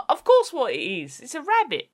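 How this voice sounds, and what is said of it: Put-on Cockney accent. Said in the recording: “You went all Cockney.”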